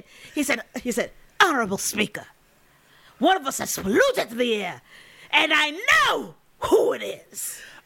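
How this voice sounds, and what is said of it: Slight fake African accent. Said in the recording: “for a minute I thought you were doing our bad fake African, yes, as if that's an accent ... So slight”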